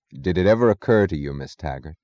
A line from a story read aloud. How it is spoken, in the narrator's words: said Galt in the casual tone of an abstract discussion, but as if he had known her thoughts